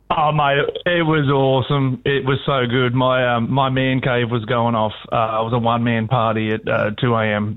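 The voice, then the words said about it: Hoarse voice. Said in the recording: “I apologise for the sound of my voice ... I didn't get much sleep ... my hoarseness.”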